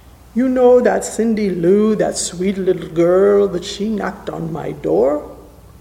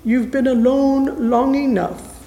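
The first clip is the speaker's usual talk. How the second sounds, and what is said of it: Sweet little girl's voice. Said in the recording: “In her sweet little voice”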